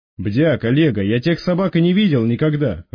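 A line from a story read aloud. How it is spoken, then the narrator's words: Snapped retort. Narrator (Russian): огрызнулся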